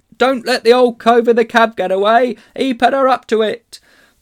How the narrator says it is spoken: someone else called out

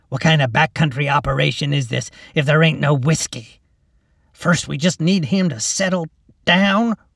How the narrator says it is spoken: Ruby grunted

